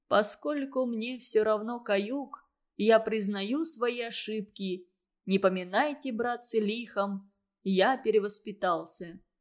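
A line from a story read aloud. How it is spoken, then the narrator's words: Dying whisper. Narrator (Russian): скажет умирающим шепотом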